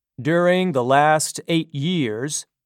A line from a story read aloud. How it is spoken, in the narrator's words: said Strelsky